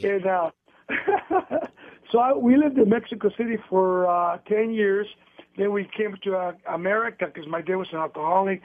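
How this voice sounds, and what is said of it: Speaks with a foreign accent. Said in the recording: “I'm the only one in my family that has an accent”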